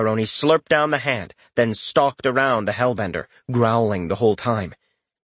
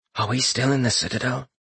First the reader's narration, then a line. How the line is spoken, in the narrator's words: he asked in a whisper